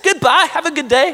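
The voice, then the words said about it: Bad put-on British accent. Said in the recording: “say that in a British accent ... Oh, that's a horrible British accent.”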